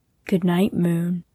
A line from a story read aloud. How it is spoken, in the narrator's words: whispered